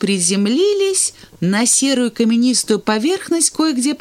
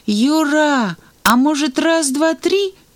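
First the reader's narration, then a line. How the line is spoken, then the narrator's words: Uncertain question. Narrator (Russian): неуверенно спросил Санька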